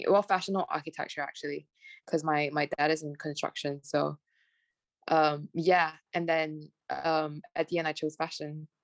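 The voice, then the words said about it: Smooth British-sounding accent. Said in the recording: “I'm like very curious about your accent though ... it's quite smooth and like it's like not Malaysian at all ... my friends always say I sound very British ... I've picked up a bit of their accent along the way ... they always say I have an American accent”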